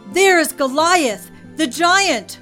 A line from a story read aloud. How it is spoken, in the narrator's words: Someone yelled